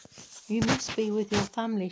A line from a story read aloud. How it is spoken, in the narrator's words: said